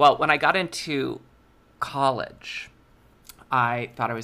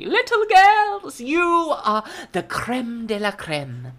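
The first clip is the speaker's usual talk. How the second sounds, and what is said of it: Put-on accent of a prim schoolteacher. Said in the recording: “I can do the accent and all the affectations of Jean Brody”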